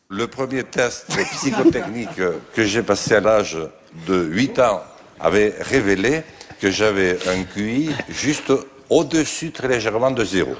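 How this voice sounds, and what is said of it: Strong Bigourdan southern French accent. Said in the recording (French): “son bel accent bigourdant ... il parlait comme ça”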